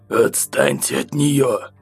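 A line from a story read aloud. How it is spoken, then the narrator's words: Hoarse croak. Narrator (Russian): прохрипел я после выпитого стакана воды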